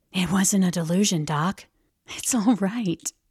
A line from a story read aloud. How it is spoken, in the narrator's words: stooping down over my bunk, whispered